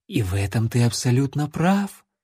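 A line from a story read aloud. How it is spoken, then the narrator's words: Purring. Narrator (Russian): промурлыкала над ухом вампирша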